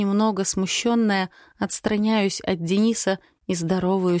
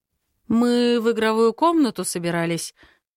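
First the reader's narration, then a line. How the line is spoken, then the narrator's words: Uncertain. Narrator (Russian): проговаривает он неуверенно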